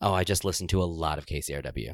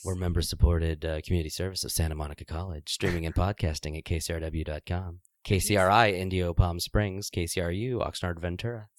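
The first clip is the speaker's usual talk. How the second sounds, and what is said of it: Public radio announcer voice. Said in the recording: “are we doing our NPR voices? ... doing my sexy NPR voice”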